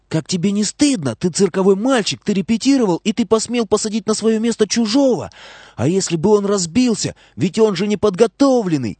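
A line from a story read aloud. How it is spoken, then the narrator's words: Whispered shout. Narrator (Russian): Но она закричала шепотом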